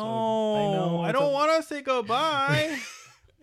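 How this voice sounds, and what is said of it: Baby voice. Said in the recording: “doing a little baby voice”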